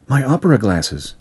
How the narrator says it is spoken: she whispered

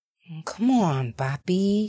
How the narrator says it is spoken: she purred, cat malicious

